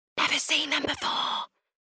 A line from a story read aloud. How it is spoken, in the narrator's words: whispered Ruby